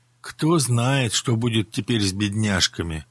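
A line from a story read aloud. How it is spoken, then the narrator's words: Sorrowful sigh. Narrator (Russian): горестно вздохнула Руженко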